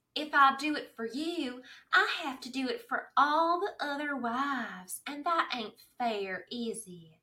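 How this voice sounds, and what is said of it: Impression of Maisy Gibbons. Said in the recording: “Finally, we found your impression. ... Maisy Gibbons”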